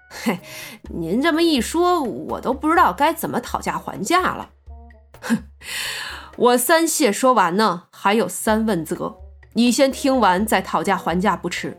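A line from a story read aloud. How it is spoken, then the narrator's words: Awkward laugh. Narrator (Chinese): 苗阿飘见他说的这么郑重，讪笑着道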